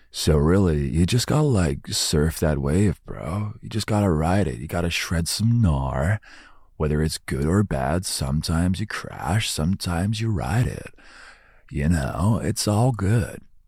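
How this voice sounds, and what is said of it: Put-on surfer dude accent. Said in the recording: “despite the accent”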